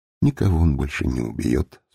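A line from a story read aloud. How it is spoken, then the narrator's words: Calm. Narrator (Russian): спокойно ответил Талбы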